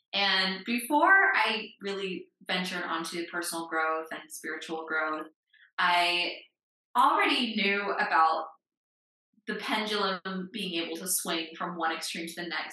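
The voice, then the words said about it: American accent. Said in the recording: “as you can tell from my accent, I grew up in the United States”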